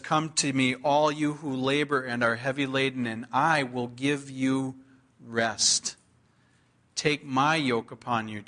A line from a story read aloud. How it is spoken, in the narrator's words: Jesus says